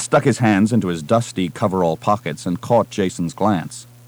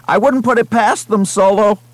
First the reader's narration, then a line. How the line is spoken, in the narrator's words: Someone at the back of Romani's group shouted